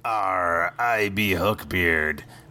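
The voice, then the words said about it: Pirate accent. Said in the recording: “pirate accent”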